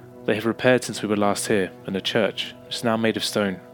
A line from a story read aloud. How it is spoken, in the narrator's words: Eric replied